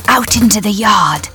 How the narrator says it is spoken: the doctor whispered

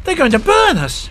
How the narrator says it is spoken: Vicky cried

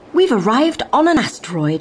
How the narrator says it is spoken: he exclaimed

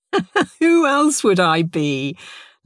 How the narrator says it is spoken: laughed

